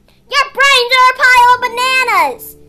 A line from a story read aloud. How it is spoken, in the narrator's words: Fritillary hollered from his perch, never one to miss out on a fight